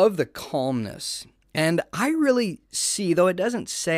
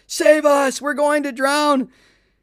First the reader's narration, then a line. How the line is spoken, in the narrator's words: yelling